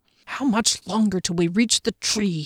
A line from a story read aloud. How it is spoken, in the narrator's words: grumbled